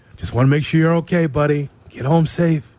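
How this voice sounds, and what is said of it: Soft, intimate bedroom voice. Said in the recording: “There's a bedroom voice of ... that people are not aware of... Soft. Right in the ear.”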